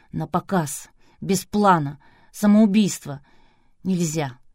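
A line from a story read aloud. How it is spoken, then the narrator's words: Inner whisper in the ear. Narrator (Russian): Остатки разума шептали в ухо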